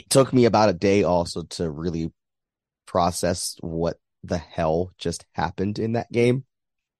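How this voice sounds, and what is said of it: Hoarse, partly lost voice. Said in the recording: “my voice sounds a little off, awkward, I lost my voice ... I have not had a voice for about 24 hours, slowly coming back”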